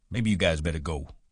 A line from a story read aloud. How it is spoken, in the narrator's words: he said